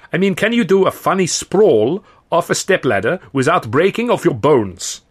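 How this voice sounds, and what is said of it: Indeterminate European accent. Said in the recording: “in an indeterminate European accent”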